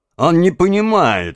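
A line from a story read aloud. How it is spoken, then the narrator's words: Laughing. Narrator (Russian): рассмеялся барон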